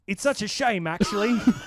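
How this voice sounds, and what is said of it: Attempted Australian accent, sounds British. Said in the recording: “present to you Australian accent ... British. ... I've never done an Australian accent.”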